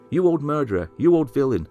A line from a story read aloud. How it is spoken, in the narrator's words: Somebody shouted to him